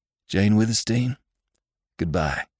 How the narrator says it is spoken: called Venters hoarsely

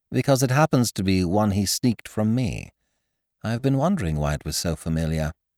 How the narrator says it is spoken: I said soothingly

